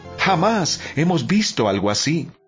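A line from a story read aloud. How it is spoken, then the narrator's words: Amazed group exclaiming. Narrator (Spanish): Todos estaban asombrados y alababan a Dios exclamando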